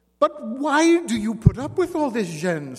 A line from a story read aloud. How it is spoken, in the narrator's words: Simon Lafleur asked angrily